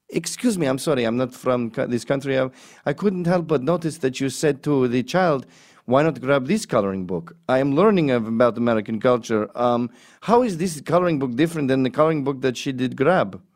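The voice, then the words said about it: Put-on foreign accent. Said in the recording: “you can do an accent”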